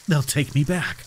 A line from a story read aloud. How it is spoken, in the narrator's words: I whispered, my voice trembling